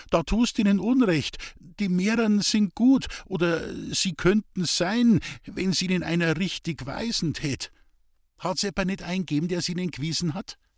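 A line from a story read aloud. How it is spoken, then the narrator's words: Frightened stutter. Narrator (German): stotterte Hans-Peter erschrocken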